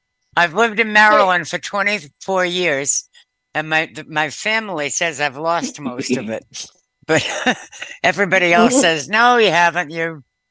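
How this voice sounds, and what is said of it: Strong Eastern US accent. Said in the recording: “your accent is very strong. Eastern something.”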